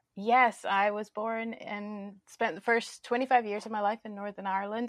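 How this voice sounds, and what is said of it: Northern Irish accent. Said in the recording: “people can hear your accent now ... you're originally from Northern Ireland”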